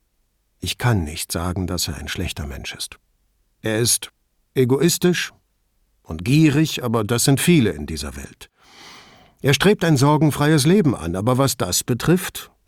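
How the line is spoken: Soft snort. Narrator (German): schnaubte leise

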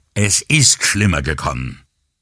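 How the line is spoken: Angry. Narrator (German): wütend

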